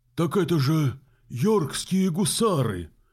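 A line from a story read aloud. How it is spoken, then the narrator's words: Reviving exclamation. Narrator (Russian): воскликнул Симон Берден, оживая, словно тлеющий уголек под дуновением ветерка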